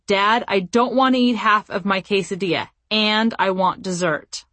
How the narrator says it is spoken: my son said to Scott in an angry tone of voice

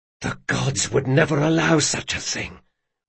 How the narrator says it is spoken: whispered Locke, not sure he believed it, but certainly wanted to

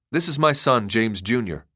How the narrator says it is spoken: Lynch said

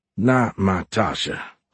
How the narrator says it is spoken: Horn muttered

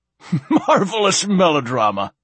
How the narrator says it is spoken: laughed Silenus

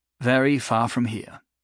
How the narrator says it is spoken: he said, wistfully

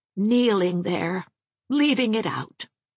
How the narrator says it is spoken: said Miss Minerva dreamily

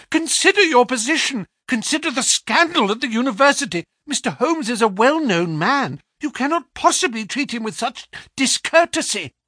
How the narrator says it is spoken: he cried

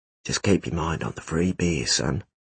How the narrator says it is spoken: Ralph whispered to Tom

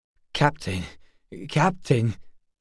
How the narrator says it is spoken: Bunder stammered, horrified

